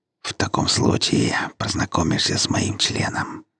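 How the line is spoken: Whispered. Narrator (Russian): прошептал Гера

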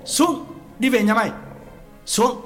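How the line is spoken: Shout. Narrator (Vietnamese): Quán quát

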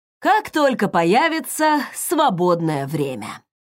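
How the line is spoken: Heavy exhale. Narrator (Russian): Тяжело выдохнул он

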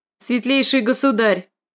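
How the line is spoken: Sharp reminder. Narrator (Russian): резко напомнил он

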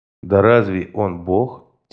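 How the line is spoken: Quiet question. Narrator (Russian): тихонько спросил я

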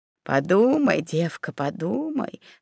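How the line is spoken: Calm old woman's voice. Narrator (Russian): спокойно сказала старуха Пассан

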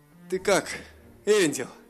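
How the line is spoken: Groaning. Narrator (Russian): простонал дракон

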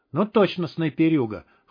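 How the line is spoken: Amused snort. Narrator (Russian): хмыкнул Добрыня

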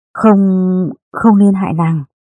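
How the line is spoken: Panicked trembling voice. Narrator (Vietnamese): Lê Văn hoảng kinh, nó nói bằng giọng run run

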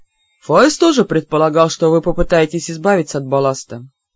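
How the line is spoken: Completely calm. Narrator (Russian): совершенно спокойно сообщил Энар Второй

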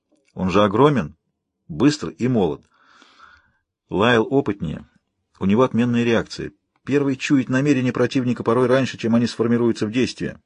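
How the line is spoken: Self-important announcement. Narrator (Russian): важно сообщил мой умный Айри

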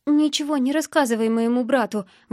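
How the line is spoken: Breathed out through tears. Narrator (Russian): выдохнула сквозь слезы

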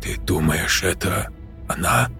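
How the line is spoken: Girl whispering. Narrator (Russian): прошептала девушка

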